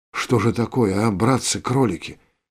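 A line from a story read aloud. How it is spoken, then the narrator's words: Whisper. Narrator (Russian): прошептал Виктор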